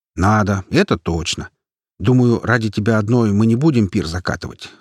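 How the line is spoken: Snorting chuckle. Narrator (Russian): хмыкнул я

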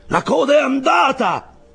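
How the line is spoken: Shout. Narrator (Italian): fu il grido

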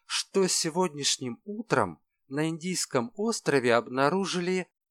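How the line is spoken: Press secretary's barely audible whisper. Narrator (Russian): понизил тон до еле слышного шепота пресс-секретарь

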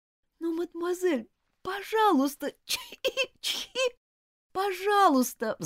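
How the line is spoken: Pleading. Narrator (Russian): взмолилась Элизабет

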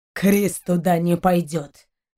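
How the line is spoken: Growled. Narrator (Russian): зарычал Шейн

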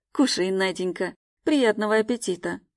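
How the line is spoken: Calm speech. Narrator (Russian): Уже спокойно говорит он

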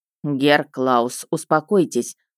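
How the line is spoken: Stern. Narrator (Russian): строго сказала

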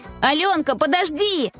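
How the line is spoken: Shouted after someone. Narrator (Russian): Крикнула ей вслед Варя

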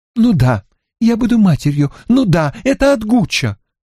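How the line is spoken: Exclaiming. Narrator (Russian): воскликнула Мари

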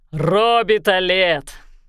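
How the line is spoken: Booming male voice. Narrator (Russian): прогудел мужской голос

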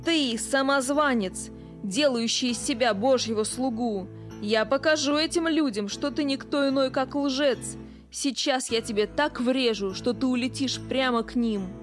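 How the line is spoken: Growling. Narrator (Russian): Он снова зарычал

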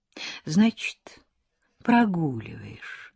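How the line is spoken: Gentle question. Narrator (Russian): так же ласково спросила она

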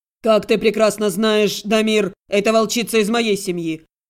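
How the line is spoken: Growl. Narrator (Russian): рыкнул Фирсанов

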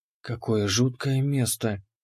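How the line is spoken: Barely audible whisper. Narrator (Russian): прошептала Ани, ее голос был едва слышен

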